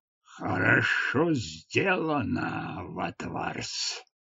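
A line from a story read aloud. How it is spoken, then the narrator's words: Growling. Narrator (Russian): прорычал он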